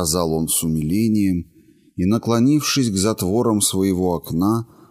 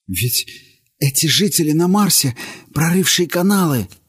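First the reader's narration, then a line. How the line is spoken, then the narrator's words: Quiet exclamation. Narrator (Russian): тихо воскликнул он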